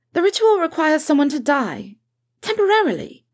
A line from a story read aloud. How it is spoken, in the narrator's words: she said hastily